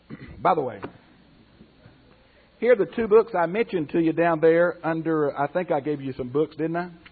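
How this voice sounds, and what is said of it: Hoarse, strained voice. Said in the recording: “I'm getting hoarse.”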